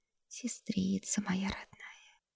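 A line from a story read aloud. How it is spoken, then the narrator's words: Very quiet. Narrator (Russian): царица произнесла тихо-тихо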